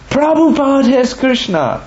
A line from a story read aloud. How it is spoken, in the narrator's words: opened her eyes wide, eyebrows raised, and exclaimed